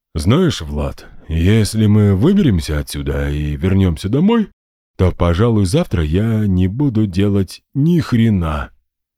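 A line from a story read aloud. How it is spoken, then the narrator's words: Plain. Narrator (Russian): сказал Герман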